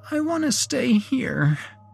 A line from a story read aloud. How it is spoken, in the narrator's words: whimpered Vivi